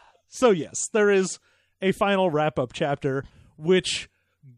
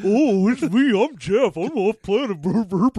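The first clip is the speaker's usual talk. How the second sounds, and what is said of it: Imitates another person's voice. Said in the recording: “That was a perfect impression. ... Spot on.”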